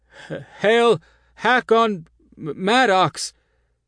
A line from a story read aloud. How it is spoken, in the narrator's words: the advisors stammer, and their teeth chatter with fright